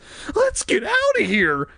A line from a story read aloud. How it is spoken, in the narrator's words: Casey cried, grabbing Margaret's hand in fear